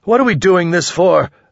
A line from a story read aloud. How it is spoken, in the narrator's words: I yelled